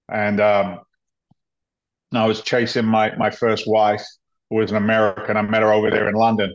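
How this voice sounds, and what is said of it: English accent. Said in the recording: “I, like you, have a funny accent ... I came from England”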